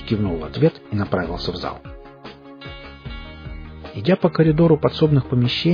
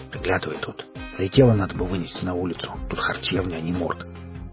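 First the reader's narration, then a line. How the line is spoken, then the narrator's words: Whispered. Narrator (Russian): он шепнул ему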